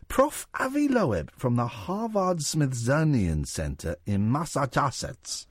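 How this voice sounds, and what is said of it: Odd put-on foreign accent. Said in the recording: “Why do you sound like one of those people that wakes up after a head injury and thinks that they're speaking... in a foreign accent ... It sounds like Nelson Mandela, doesn't it?”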